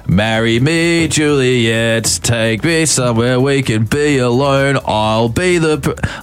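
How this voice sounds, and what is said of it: Exaggerated put-on Australian accent. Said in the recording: “intentionally in an Australian accent ... what I was doing in a very Australian accent.”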